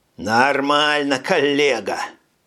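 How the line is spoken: Growling in discomfort. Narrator (Russian): прорычал Горский, которому казалось, что его посадили на раскаленную плиту

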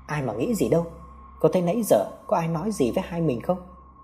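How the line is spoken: Soft laugh. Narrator (Vietnamese): Hào khẽ cười

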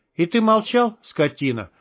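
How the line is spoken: Affectionate, gentle. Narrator (Russian): ласково сказал Штык

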